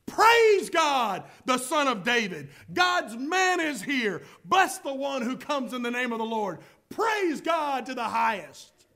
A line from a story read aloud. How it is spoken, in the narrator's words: the crowds all around Jesus were shouting